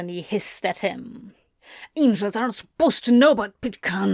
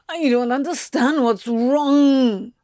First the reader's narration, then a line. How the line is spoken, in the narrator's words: he whined suddenly